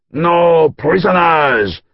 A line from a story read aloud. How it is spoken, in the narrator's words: a French knight shouted